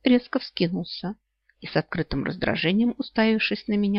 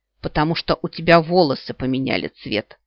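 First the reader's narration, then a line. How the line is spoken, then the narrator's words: Blurted out. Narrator (Russian): выдал Кайл Ласгален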